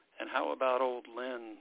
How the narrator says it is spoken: Father Dennis asked

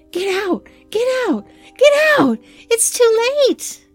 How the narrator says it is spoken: she kept on screaming

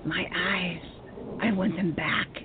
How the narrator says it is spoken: rasped

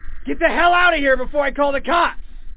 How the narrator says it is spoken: I instinctively yelled

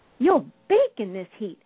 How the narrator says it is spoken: Aunt Sassy cried

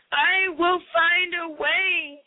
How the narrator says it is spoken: he cried at last

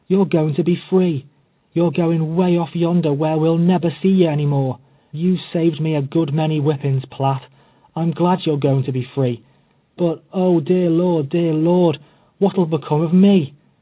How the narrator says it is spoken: she cried, tears streaming down her face

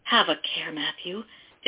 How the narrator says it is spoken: his mother cried

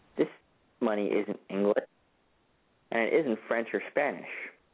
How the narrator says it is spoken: muttering

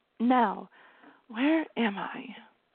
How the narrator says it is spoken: She whispered

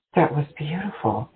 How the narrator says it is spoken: she breathed

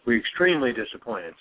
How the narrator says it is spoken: says McDonald's

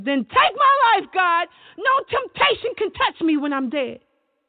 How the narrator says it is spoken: I sobbed deeply and screamed

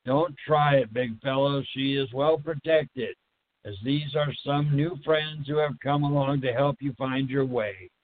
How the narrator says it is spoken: said

